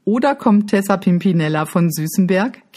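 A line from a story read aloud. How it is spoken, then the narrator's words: Giggling. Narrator (German): kichert jetzt auch Lisa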